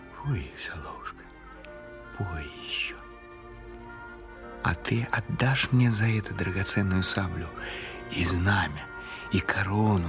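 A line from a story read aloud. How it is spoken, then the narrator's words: Quiet repeating. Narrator (Russian): Сама смерть тихо повторяла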